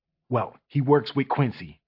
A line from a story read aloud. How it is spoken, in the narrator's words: JL whispered